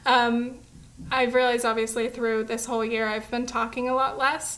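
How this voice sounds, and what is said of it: Strained, failing voice, sounds teary. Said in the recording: “I'm choking... My voice is going. It's really hard to... I sound like I'm crying. I'm not... I start to lose my voice”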